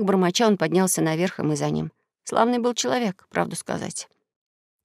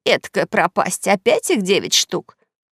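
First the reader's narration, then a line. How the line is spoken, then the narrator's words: Exclaimed. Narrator (Russian): воскликнула она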